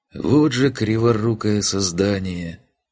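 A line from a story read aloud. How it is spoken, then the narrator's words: Affectionate grumble. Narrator (Russian): ласково пробурчал он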